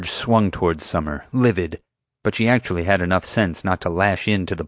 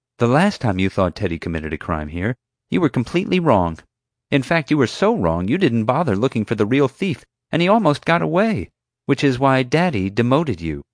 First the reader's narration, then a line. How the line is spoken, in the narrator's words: Summer quickly reminded her